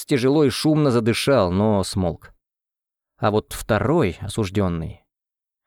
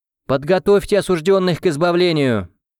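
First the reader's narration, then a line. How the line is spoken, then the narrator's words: Loud executioner's announcement. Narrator (Russian): громко произнес экзекутор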